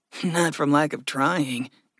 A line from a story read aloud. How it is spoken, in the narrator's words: Gregory chuckled